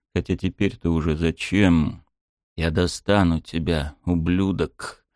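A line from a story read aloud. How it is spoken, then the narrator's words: Hate-trembling growl. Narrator (Russian): Дрожа от ненависти, прорычал я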